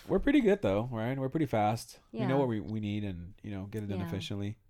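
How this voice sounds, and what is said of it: Congested, stuffy-nosed voice. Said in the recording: “I sound a little congested. I'm not sick.”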